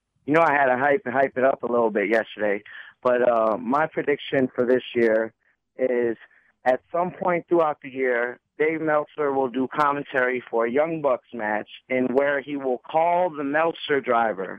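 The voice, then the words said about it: Hoarse, fading voice. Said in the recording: “I'm losing my voice here a little bit... Clearly, it was cheering on all of the competitors”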